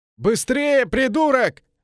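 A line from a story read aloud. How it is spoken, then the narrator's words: Yelling through coughing. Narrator (Russian): заорал один из тех, кто держал канат сквозь кашель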